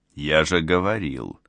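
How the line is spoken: Said quietly. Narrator (Russian): тихо произнес он

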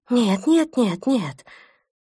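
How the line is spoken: Agitated. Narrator (Russian): Натан взволнованно

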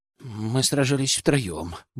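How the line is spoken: Grumbled. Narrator (Russian): буркнул Кленовый

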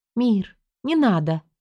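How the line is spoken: Almost plaintive. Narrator (Russian): Это прозвучало почти жалобно

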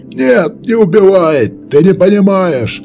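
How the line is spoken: Desperate last shout. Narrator (Russian): Успел выкрикнуть он до того, как меч Уильяма снес ему голову

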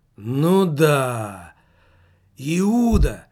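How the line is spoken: Exclaimed. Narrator (Russian): воскликнул Немаркетинг

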